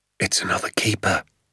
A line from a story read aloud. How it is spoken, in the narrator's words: he whispered